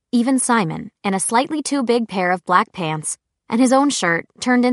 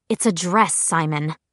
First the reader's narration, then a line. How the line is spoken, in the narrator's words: Clary said dryly